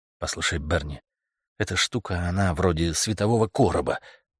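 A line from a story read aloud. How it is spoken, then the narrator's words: Muttered. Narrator (Russian): пробормотал Стентон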